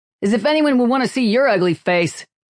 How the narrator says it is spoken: laughed, called out

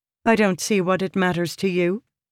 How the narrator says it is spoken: she said coldly

